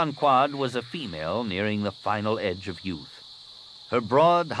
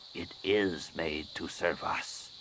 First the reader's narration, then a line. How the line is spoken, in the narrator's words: she said quietly